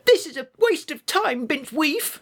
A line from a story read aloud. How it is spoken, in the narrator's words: squealed Tony